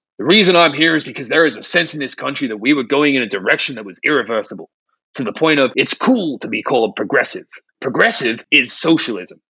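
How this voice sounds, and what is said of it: Impression of Mike Flynn. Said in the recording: “I know this isn't really his accent”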